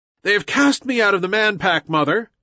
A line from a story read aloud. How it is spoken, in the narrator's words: shouted Mowgli